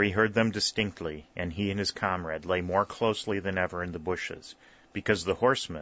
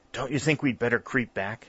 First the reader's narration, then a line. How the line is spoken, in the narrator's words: he whispered